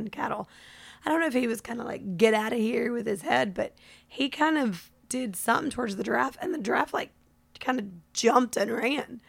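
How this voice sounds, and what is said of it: Raspy voice. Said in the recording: “you can tell by my lovely raspy voice”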